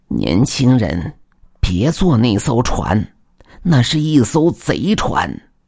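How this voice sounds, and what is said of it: Quiet, hushed speaking. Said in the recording (Chinese): “小声说道”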